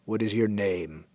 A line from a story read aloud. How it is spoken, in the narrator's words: rumbled the lead rider